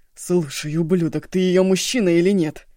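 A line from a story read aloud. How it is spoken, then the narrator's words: Exhausted barking. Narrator (Russian): Из последних сил рявкнул Шанго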